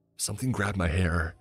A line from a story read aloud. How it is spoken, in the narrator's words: Roger frantically whispered